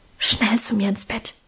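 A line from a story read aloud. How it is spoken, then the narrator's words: Whispered. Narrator (German): flüsterte sie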